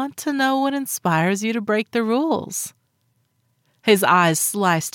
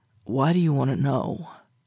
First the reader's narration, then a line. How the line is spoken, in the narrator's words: mumbling